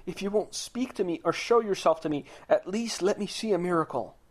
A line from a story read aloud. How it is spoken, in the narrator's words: the man cried out and said